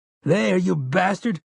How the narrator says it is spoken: Jamie screams

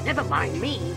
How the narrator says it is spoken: the doctor replied

